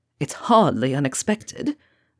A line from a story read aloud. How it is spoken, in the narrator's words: Lucius returns easily, proudly